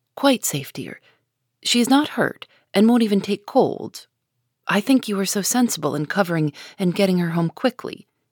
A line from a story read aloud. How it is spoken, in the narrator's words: replied her mother cheerfully